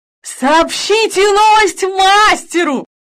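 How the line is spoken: Shouted. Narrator (Russian): крикнул

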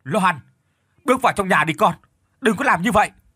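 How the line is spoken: Man shouting. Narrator (Vietnamese): Ông la lên

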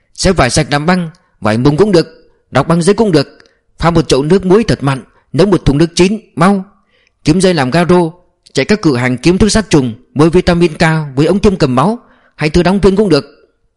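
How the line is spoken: Shouting. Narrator (Vietnamese): Khánh quát

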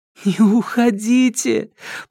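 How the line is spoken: Near moan, demon. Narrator (Russian): почти простонала бес

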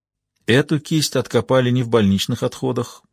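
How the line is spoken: Plain. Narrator (Russian): сказала Джейн

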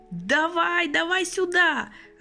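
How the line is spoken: Joyful old man shouting. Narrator (Russian): радостно крикнул в открытую форточку старик

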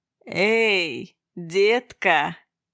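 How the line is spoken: Drawling. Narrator (Russian): протянул он

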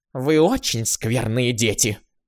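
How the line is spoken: Grumbling. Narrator (Russian): проворчала

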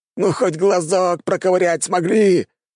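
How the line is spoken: Wail. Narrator (Russian): взвыл Гоминик

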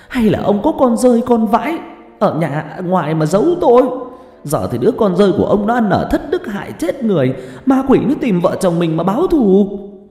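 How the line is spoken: Hissing shriek. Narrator (Vietnamese): bà phân vân, rồi mà rít lên

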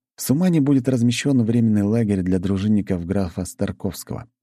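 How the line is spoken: Plain. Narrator (Russian): ответил я

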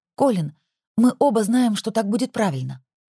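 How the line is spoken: Trembling voice. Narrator (Russian): ответила я дрожащим голосом

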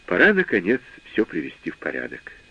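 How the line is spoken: Soft, gentle. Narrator (Russian): мягко сказал я

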